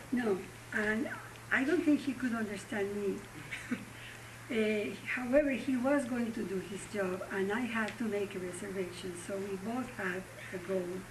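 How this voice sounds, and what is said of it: Very heavy foreign accent. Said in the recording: “someone with a very heavy accent”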